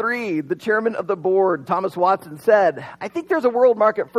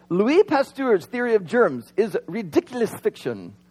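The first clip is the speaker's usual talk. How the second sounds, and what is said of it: Poor put-on French accent. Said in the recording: “That was a horrible French accent”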